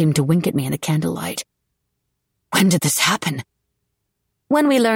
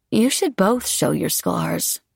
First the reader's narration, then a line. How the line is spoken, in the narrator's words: she murmured